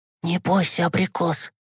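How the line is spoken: Whisper. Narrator (Russian): прошептал Гешка

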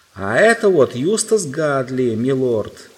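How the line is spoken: Owl shouting loudly. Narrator (Russian): изо всех сил прокричала сова

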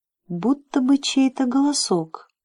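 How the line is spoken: Whisper. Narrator (Russian): шепнул Джим

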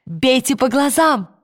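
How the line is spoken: Shouting. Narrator (Russian): крикнула она

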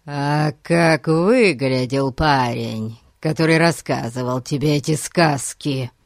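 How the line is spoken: Menacing interrogation. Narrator (Russian): Грозно продолжал допрашивать Гун

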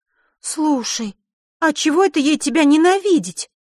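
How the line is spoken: Emotional exclamation. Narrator (Russian): Не сдержав эмоций, воскликнула Захара

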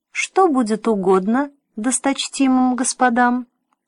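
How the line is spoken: Sweet thin sing-song. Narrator (Russian): Все так же любезно, как вчера, пропел он тоненьким голосом, сладко улыбаясь

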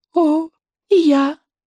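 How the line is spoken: Squeaky. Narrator (Russian): пропищала Буремуха

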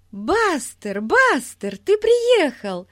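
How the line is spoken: Joyful shouting. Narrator (Russian): радостно кричала Дейзи

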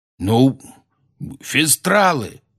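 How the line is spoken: Loud barking shout. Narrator (Russian): гаркнул он

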